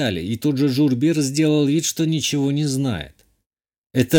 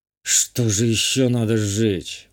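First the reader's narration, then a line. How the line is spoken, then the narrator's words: Muttering to himself. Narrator (Russian): буркнул сам себе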